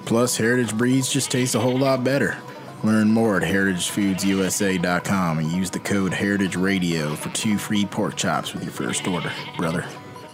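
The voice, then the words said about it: Put-on Southern US accent. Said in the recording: “Did you get someone who actually speaks that way, or did you imitate somebody else's accent? ... from the South, but that's not really his natural way of speaking”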